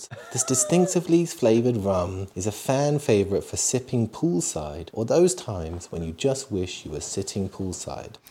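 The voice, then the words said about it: Soft, lowered reading voice. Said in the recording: “I like your reading voice ... I go down a notch. I do the soft voice. ... it's not actually my voice”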